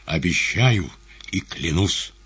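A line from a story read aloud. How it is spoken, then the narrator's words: Solemn. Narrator (Russian): торжественно произнес Иван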